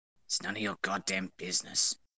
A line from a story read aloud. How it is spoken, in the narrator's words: Kachan grumbled